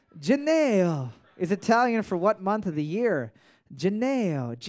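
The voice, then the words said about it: Put-on Italian accent. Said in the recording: “I'm going to just say it in an Italian accent”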